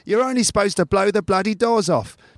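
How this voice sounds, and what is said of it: Angry, not very good imitation. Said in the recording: “sometimes he gets very angry indeed ... that's not a very good Michael Caine impression”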